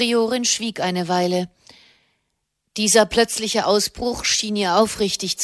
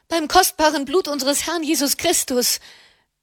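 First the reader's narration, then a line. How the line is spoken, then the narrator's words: Loud call. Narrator (German): rief sie laut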